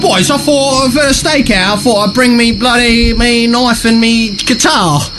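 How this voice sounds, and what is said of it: Put-on accent, poorly done. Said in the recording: “You need to practice on your accent too ... way off now.”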